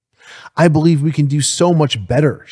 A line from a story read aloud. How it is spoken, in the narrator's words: she says